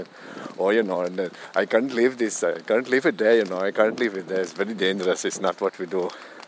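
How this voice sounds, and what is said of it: Imitated Indian accent. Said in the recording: “he did the accent of a Tesco driver that he was speaking to on the phone, and it was an Indian accent”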